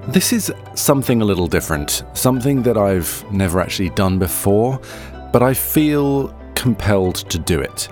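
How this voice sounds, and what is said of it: Congested voice from a cold. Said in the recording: “I don't sound on top form today, I've got a bit of a cold, so my voice sounds a little odd”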